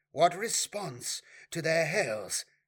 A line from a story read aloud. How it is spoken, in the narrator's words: asked Elilil anxiously